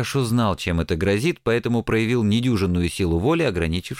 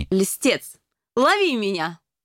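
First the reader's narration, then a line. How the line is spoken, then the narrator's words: Squealing woman. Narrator (Russian): Она с визгом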